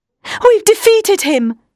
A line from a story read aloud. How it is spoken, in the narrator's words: she cried